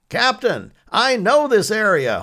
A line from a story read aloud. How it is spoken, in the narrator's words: Holt shouted above the sound of their motor in the windy rain driving into them